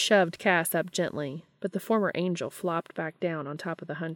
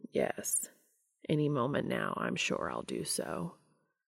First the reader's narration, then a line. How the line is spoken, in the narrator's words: Cass said lazily